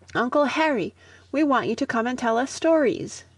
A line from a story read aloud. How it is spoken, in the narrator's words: Budge exclaiming